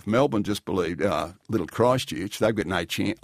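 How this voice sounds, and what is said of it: Bad put-on Australian accent. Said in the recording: “I'm doing a bad Australian accent.”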